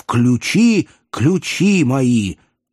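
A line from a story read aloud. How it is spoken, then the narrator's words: Wheezing. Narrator (Russian): хрипя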